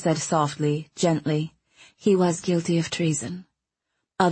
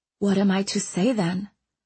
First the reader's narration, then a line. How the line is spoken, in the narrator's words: Owen asked nervously